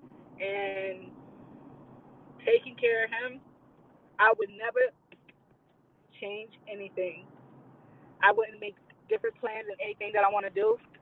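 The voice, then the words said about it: Emotional, strained voice. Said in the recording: “I'm sorry, y'all, for my voice. I am a little emotional.”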